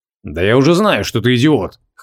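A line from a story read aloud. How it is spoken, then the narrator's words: Scoffing snort. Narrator (Russian): хмыкнул Креол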